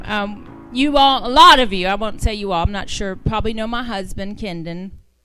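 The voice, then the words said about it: Southern American accent. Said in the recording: “wow, my southern accent just came out.”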